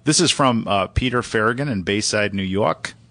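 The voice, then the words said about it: Put-on New York accent. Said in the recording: “It's my best New York accent.”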